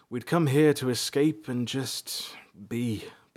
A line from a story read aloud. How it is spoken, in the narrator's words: Balthar said wistfully